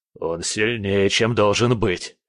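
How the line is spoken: Through gritted teeth. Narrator (Russian): сквозь зубы процедил Кретов

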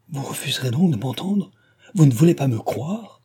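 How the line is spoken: Beside herself exclaiming. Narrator (French): s'écria-t-elle hors d'elle-même

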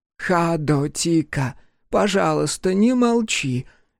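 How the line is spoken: Old woman pleading. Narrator (Russian): взмолилась старая женщина

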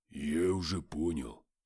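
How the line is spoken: Husky baritone. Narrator (Russian): ответил баритоном с хрипотцой

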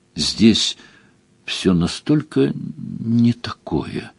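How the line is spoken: Quiet. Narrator (Russian): тихо сказала Делия

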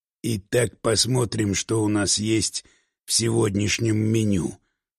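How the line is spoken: Muttering. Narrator (Russian): пробормотал он

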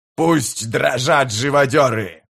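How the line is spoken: Roared. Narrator (Russian): проревел он

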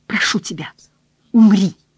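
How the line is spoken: Whisper. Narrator (Russian): прошептала она

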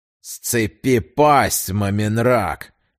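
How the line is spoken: Young man through gritted teeth. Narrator (Russian): наконец процедил парень сквозь зубы

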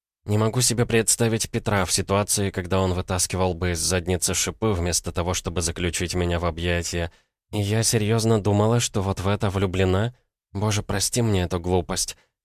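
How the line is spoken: Mumbled. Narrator (Russian): пробормотала

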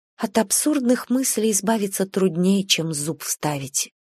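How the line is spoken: Ready agreement. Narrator (Russian): с готовностью согласилась Анна Аркадьевна и тихо добавила

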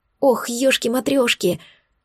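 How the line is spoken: Whisper. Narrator (Russian): Сол шепнул

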